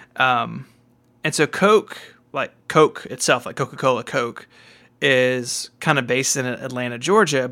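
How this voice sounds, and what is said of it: Southern American accent. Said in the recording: “I'm from the South. I don't know if you guys could tell that from the accent”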